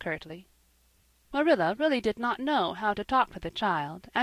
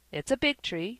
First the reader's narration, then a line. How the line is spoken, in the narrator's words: said Marilla